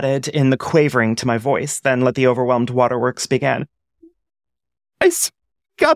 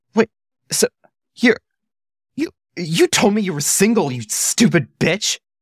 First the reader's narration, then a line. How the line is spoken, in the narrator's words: I gasped in fury